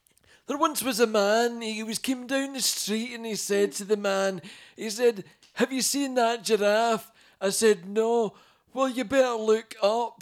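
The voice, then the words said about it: Imitates another person's voice. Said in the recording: “You do a good impression of him. ... I do a Billy Connolly impression,”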